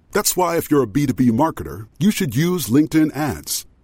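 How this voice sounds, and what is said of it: Very deep voice. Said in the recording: “As a person with a very deep voice”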